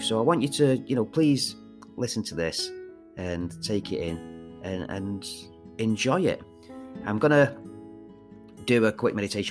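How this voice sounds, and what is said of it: Manchester accent. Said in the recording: “such a weird accent? And it's true, I am from Manchester ... this kind of accent”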